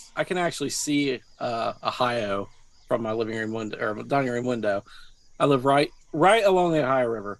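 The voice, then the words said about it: West Virginia accent, between southern and northern. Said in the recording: “I could tell by your accent. It's not exactly southern, but it's not exactly northern.”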